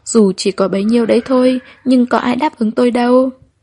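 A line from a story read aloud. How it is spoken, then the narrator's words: Sighing. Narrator (Vietnamese): Tôi thở dài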